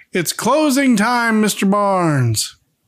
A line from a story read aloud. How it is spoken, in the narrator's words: He shouts